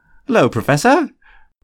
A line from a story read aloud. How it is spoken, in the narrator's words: Fred said cheerfully